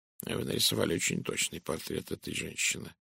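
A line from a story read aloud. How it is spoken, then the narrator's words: Muttered. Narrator (Russian): пробормотал Пуаро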